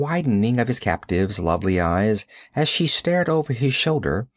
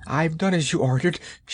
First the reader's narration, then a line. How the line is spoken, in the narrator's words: she gasped hysterically